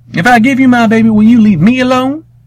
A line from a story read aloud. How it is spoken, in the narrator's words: Grandmama yelled at the hairy man through the door